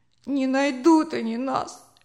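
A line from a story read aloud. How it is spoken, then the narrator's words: Sobbing. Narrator (Russian): всхлипывал Джозеф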